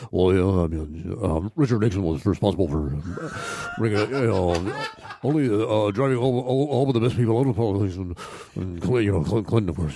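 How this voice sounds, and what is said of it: Imitates another person's rambling voice. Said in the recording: “he never finished a sentence ... that was my impression”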